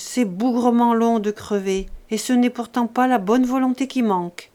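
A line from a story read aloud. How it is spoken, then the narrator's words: Grumbled. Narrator (French): grognait-il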